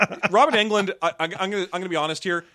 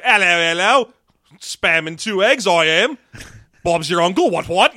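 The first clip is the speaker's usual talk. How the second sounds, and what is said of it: Exaggerated fake British accent. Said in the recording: “he sounds like he's doing a fake British accent when he's not”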